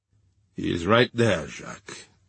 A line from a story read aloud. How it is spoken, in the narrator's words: murmured Defarge